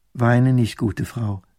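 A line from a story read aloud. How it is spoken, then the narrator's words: Plain, young woman. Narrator (German): sagt das Fräulein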